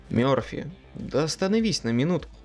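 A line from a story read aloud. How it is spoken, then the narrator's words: Pleading. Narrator (Russian): взмолился я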